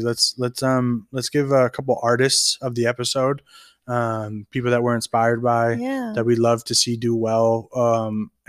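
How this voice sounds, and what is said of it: Raspy, strained voice. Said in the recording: “My throat. ... I'm getting raspy.”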